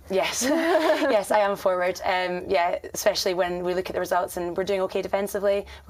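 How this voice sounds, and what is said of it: Scottish accent. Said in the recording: “I am from Scotland, you might have guessed by the accent.”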